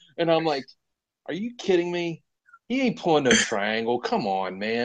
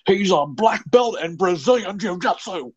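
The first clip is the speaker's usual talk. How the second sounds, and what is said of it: Imitates another person's voice. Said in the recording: “that was a great impression, by the way. That's pretty dead on. That was pretty solid. Mauro Ranallo is pretty tight.”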